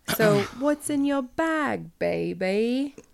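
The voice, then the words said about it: Bad Austin Powers British accent. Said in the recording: “my terrible Austin Powers accent ... Was that supposed to be Austin Powers? ... It was so bad.”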